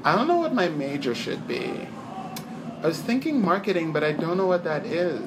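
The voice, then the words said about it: Dumb American girl voice. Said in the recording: “I'm doing the American, dumb American girl voice.”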